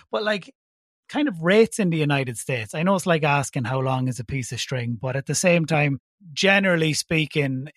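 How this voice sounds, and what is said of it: Irish accent. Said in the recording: “I'm based in Ireland, in case you haven't guessed by my accent”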